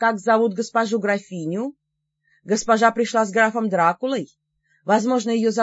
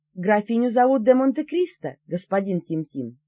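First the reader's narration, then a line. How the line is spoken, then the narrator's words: Calm. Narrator (Russian): спокойно сказала я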